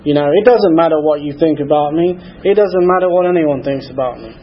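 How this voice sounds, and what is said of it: Mix of British and Southern redneck accent. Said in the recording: “my accent's a little bit strange, I know. It bounces between British and redneck. ... the British redneck”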